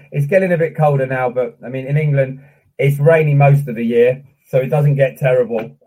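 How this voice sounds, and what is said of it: English accent. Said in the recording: “calling from Hampshire in the UK ... that accent”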